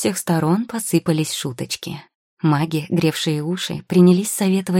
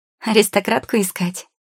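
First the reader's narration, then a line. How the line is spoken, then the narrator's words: Giggling. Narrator (Russian): хихикнула Анхелика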